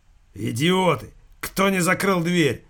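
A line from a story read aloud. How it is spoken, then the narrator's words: Big man barking. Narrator (Russian): рявкнул потный верзила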